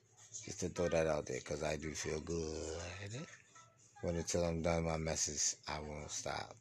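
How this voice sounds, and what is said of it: Slightly slurred, sedated speech. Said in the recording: “I'm heavy sedated on my medicine, so my voice might be slurring a little”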